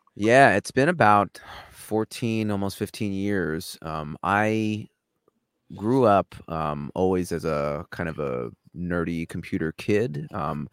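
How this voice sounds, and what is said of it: New York accent. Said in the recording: “If you couldn't hear from my accent, I'm a New Yorker.”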